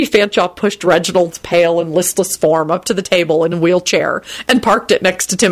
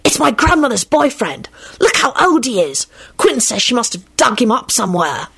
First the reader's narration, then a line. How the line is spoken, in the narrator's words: he hissed